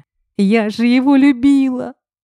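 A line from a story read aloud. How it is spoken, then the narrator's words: Choking on sobs. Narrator (Russian): давилась рыданиями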